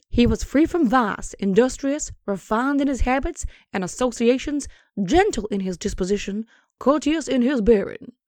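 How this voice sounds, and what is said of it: Cartoon rooster character voice. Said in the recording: “going to do my Foghorn Leghorn voice ... That is my Foghorn Leghorn voice. It needs some work, but, you know, it's getting there.”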